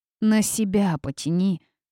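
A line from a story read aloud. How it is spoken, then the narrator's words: Grumbled. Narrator (Russian): буркнула она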